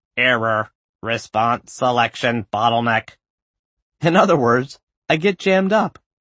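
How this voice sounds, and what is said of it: Robotic voice. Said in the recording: “in a robot voice.”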